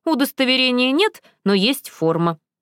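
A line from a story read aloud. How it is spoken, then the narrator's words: Snorting. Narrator (Russian): хмыкнул Моррис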